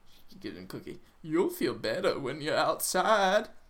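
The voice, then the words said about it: Bad impression of the Oracle. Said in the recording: “That's not how the Oracle talked. I'm sorry, that's a bad accent.”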